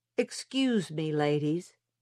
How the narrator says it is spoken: he said

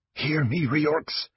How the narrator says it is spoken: Mortar whispered in desperation

